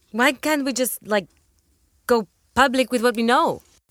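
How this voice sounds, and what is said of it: Foreign accent, public sounds like pubic. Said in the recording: “It's your accent, honey. You made public sound like pubic.”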